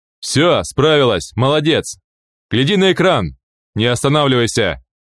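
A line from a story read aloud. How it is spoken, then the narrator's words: Yelling slipper. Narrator (Russian): заорал тапок Саммер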